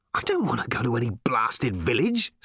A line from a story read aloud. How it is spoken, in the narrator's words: snapped Ford